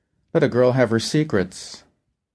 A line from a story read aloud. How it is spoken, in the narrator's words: Coolly, she said